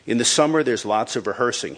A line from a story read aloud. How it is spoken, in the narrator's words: he said